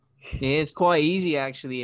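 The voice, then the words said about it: Put-on British Cockney accent. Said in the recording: “his Cockney accent is super funny ... British? ... me fucking British accent ... do accents on the fly like this”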